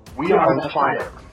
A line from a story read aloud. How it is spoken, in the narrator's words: the rest of the warriors shout